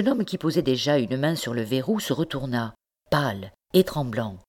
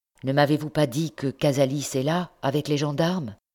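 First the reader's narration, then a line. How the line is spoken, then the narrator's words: Plain question. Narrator (French): demanda-t-il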